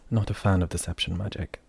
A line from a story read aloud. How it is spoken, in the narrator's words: Lidikai muttered as calmly as he could